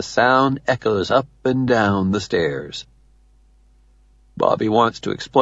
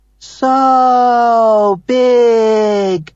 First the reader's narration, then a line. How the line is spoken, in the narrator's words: hollers